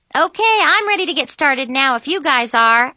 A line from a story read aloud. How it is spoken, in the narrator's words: I said cheerfully